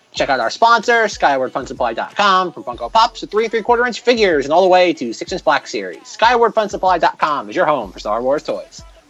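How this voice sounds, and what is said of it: Very fast rapid-fire speech. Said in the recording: “I did my Micro Machine voice to get through that intro”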